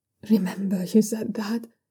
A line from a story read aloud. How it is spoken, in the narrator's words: Yitsun mumbles faintly